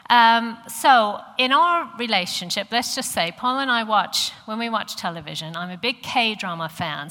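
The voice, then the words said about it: American accent. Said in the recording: “I come from America, if you're wondering what the accent is ... I know that I still sound American to you”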